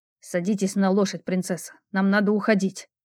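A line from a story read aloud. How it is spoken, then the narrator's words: Man muttering in pain. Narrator (Russian): скривившись от боли, пробормотал мужчина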